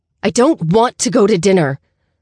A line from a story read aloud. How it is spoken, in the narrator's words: shouted